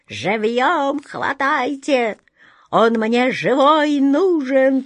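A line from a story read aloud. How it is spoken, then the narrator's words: Groaning in pain. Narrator (Russian): простонал вряд ли, корчась на земле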